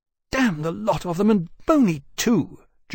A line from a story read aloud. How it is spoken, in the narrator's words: Jane snapped